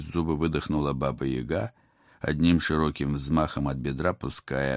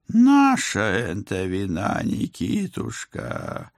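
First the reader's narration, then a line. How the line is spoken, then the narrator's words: Old woman's muffled moan. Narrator (Russian): глухо простонала бабка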